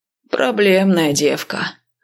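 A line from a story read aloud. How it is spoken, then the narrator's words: Sighing. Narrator (Russian): вздохнул командир части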